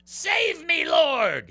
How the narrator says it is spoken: he shouted

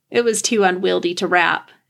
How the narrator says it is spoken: she said, laughing

